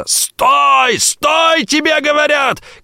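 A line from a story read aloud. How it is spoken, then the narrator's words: Shouting. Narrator (Russian): кричал незнакомец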